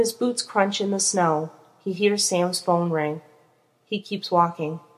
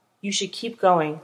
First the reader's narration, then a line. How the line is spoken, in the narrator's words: says Castiel, evenly